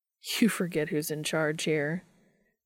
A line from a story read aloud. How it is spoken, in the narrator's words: replies with a chuckle